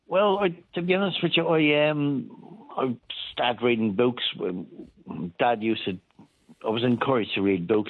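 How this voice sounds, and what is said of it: Foreign accent. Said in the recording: “I can detect from your accent alone”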